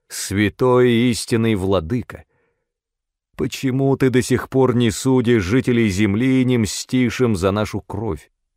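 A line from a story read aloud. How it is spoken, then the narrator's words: Loud shouting. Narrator (Russian): закричали громким голосом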